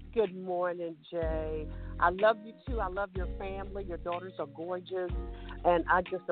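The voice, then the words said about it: Southern twang accent. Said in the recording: “Always bring that Southern twang to the show”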